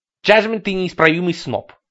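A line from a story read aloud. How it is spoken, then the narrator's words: Snorting. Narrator (Russian): хмыкнул Ларри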